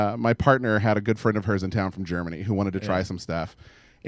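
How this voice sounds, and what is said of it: Usual voice. Nothing is said of it.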